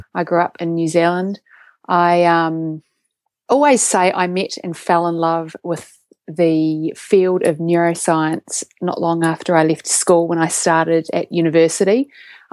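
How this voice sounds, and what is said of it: New Zealand accent. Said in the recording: “my accent ... So I have a Kiwi accent.”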